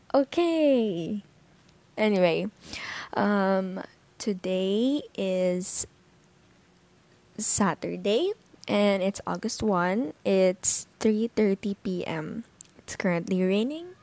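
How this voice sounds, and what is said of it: Hoarse voice. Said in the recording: “I'm so sorry for my voice. It's medyo namamalat siya ngayon”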